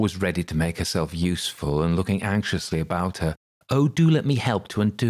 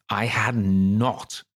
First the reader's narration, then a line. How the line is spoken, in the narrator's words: cried the mouse sharply and very angrily